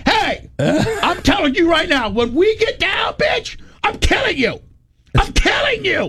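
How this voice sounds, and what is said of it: Yelling angrily. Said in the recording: “I'm yelling”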